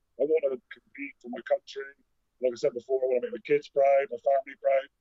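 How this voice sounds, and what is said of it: Bristol English accent. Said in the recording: “I'm even Bristol proud. I love where I come from, even though I've got a dodgy accent ... it's in contention with one of the sexiest accents in Strongman”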